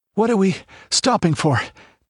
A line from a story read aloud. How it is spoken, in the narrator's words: panted Balthus